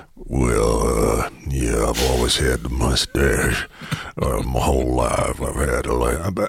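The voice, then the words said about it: Poor Sam Elliott impression, deep rumble. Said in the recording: “Sam Elliott ... his voice is just unbelievable ... Apologies for my terrible accent, but that kind of deep rumble”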